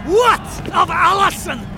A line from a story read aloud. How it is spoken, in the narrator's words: cried the chief of the Camerons